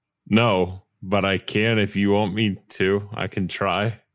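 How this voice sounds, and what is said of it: Unusually deep, distorted voice. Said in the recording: “It's got a deeper voice than I'd expect ... your voice is being distorted because it's very deep right now”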